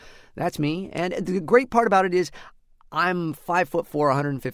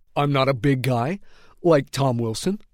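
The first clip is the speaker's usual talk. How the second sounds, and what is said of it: Impression of Tom Wilson. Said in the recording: “my Tom Wilson impression”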